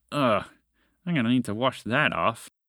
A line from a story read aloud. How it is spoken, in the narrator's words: muttered